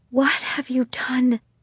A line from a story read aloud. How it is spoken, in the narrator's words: she whispered